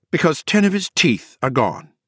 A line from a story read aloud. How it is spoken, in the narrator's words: she said curtly